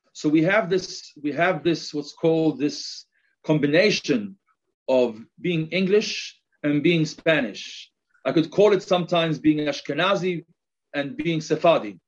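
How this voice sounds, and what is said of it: English accent with Spanish tinge. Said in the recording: “a little bit of my English accent. But on the other hand, you may also note a little bit of a Spanish accent”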